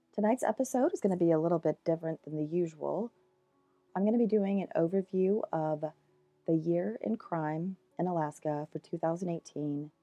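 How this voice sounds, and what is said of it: Scratchy voice from a cold. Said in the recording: “I got a cold, and I apologize if my voice is a little bit more scratchy than usual”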